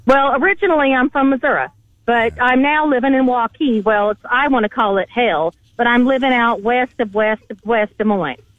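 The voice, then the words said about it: Midwestern twang. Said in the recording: “Is this your real voice ... It's super sexy ... somebody from Iowa that has this twang”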